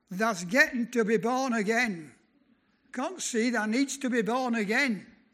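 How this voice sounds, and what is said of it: Broad Lancashire accent. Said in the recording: “in his broad Lancashire accent”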